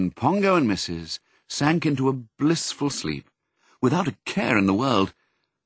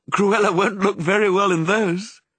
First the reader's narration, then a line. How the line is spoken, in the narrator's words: said Missus, cheerfully